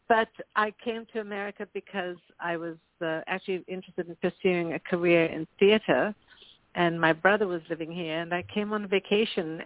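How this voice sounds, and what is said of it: Slight South African accent, American twang. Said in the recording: “I came as a very young girl from South Africa ... I still have a little bit of an accent. And when I speak to my South African friends, they say to me, I have an American twang.”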